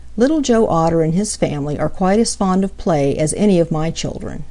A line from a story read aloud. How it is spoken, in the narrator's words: said she